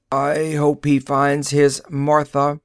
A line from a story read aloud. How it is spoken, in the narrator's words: the robot croaked